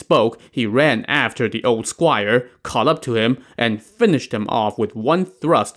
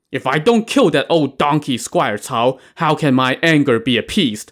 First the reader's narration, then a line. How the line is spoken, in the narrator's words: Li Kui said